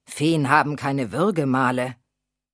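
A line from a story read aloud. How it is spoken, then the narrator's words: Growling. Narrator (German): knurrte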